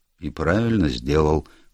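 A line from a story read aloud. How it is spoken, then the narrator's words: Muttered under breath. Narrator (Russian): буркнул я себе под нос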